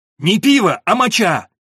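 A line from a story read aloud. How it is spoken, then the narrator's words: Loud yell. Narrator (Russian): заорал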